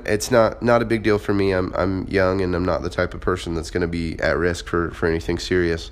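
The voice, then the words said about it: Sick voice with a cough. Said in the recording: “you might be able to hear in my voice I'm a little bit sick. I definitely do have a cough going on”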